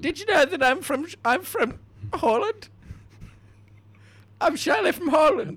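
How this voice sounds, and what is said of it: Bizarre put-on foreign accent. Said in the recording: “that explains the very bizarre accent”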